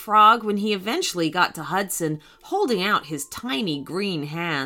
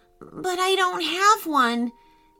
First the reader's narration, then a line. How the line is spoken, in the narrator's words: said Hudson nervously